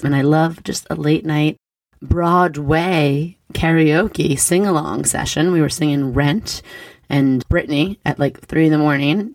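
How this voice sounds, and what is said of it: Raspy, partly lost voice. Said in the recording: “my voice is a little raspy ... I do get party girl voice pretty easily. I always lose my voice.”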